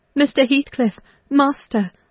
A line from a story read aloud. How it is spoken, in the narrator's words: I cried